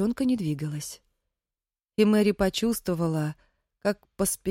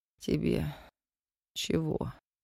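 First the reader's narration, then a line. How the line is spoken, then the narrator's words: Hoarse strained voice. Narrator (Russian): послышался хриплый, сорванный голос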